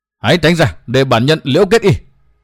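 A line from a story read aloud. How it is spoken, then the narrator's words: Roaring. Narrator (Vietnamese): Đoàn Trường Quỷ Vu gầm thét một tiếng nói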